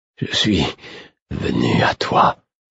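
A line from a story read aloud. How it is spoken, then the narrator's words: Murmured. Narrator (French): murmurai-je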